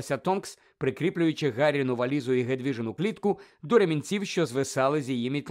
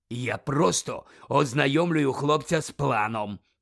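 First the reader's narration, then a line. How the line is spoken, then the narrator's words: Growled. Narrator (Ukrainian): прогарчав Муді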